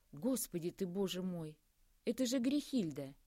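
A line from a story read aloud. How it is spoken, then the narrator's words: Joyful exclamation. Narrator (Russian): Воскликнула она, радостно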